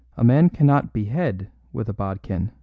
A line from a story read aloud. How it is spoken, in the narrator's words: said Brown calmly